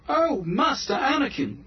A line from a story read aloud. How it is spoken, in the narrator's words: exclaimed